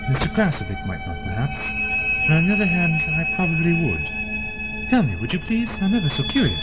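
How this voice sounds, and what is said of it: British accent. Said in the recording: “You sound British.”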